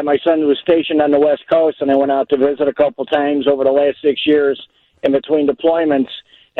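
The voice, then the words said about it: Chicago accent, distinctive S sounds. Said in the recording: “the person with the truest, most perfect Chicago accent ... You've got a pretty good one, right? ... The way you say the S's ... the S's sometimes really give you away. Where you said, you know, he's on the West Coast.”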